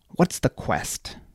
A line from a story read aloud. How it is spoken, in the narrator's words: said through clenched teeth, hating every syllable